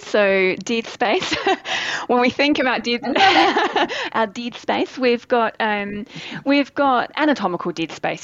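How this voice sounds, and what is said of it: Noticeable foreign accent. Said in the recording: “it's going to come out of my mouth with my accent. Very funny.”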